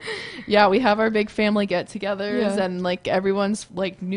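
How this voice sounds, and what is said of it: Usual voice. Nothing is said of it.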